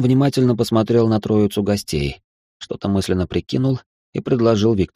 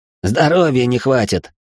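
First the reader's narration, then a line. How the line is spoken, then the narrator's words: Quick snapping retort. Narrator (Russian): Тут же огрызнулся один из молодых ребят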